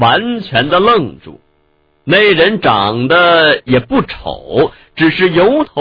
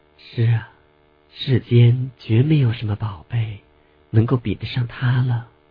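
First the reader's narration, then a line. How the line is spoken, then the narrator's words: Gentle, soft. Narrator (Chinese): 宁久微柔声地说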